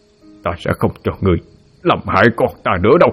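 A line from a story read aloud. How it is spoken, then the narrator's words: Harsh, emphatic voice. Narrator (Vietnamese): Hắn gằn giọng nói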